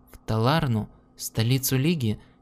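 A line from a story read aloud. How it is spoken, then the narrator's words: Plain. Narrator (Russian): спросила Лиана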